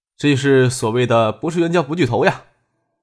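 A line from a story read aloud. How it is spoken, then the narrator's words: Smiling. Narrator (Chinese): 张可笑着跟孙尚义说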